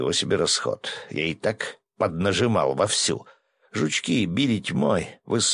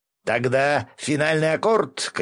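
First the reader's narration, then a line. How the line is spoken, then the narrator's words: Shouting. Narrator (Russian): крикнул Гензо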